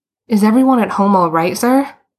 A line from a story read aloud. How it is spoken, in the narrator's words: Boots blurted out